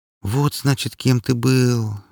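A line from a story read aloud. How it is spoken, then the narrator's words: Sighing. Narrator (Russian): вздохнула она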